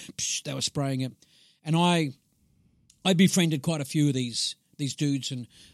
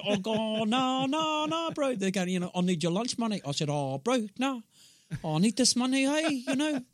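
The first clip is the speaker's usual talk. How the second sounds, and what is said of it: Put-on Maori New Zealand accent. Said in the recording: “got my Maori accent down, eh, bro?”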